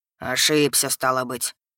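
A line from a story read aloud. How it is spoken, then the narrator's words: Gloomy, suspicious mutter. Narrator (Russian): Хмуро и подозрительно буркнул Клавдий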